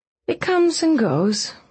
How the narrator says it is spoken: she murmured

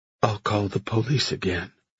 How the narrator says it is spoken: she said quietly

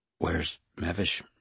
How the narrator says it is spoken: she asked quietly

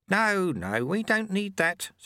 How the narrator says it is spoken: said Lutse kindly

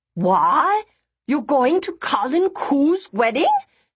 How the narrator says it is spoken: she screeched, her mouth full of food

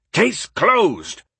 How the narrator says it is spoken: Roosevelt, thinking he had made a point, roared

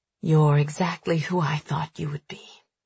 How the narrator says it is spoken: he murmurs

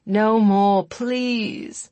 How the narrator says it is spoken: he groaned

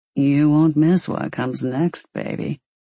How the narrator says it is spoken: Maddox said in his brand of purr

